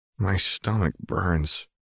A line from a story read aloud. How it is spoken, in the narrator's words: he moaned softly